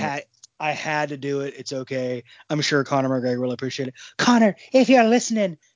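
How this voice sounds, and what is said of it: Usual voice. Nothing is said of it.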